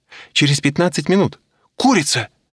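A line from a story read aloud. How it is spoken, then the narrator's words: Exclaimed. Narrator (Russian): воскликнула Аня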